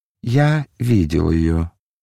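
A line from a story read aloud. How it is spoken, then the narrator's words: Calm answer. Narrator (Russian): ответил Мельхиор спокойным тоном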